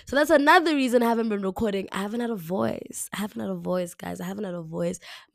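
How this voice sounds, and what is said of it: Raspy, deeper voice. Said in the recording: “I think it's a bit more raspy and a bit deeper”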